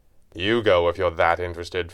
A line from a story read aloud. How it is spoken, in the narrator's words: Fenwick said coldly